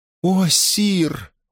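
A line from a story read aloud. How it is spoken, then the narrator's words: Pleading, feigned horror. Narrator (Russian): взмолилась, изображая ужас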